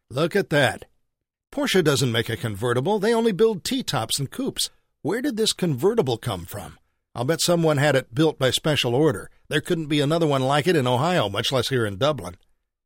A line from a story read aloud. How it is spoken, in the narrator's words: exclaimed